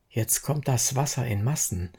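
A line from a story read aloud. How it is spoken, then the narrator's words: Plain. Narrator (German): sagte Kinn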